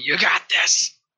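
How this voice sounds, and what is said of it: Raspy yelling character voice. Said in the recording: “that raspy voice ... I'm trying to yell as much as I can.”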